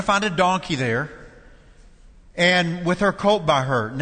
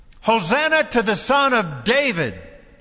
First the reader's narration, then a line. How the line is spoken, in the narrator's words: the crowds that went ahead of him and those that followed shouted